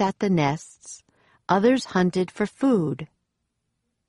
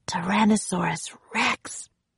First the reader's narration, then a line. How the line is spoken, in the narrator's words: whispered Jack